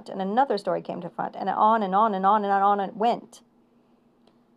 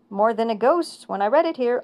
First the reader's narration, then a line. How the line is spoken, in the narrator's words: I cried